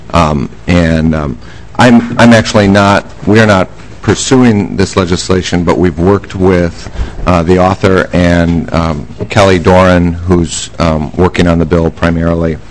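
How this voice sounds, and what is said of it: Slightly hoarse voice. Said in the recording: “my throat's a little bit hoarse today”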